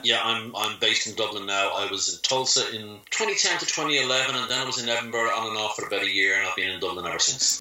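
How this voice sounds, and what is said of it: Irish accent. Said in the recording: “your beautiful Irish accent.”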